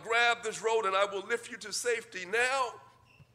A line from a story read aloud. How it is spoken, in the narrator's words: the pilot shouted down